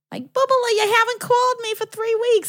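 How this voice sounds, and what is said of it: New Jersey accent impression. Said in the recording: “my nono had a beautiful, very New Jersey accent.”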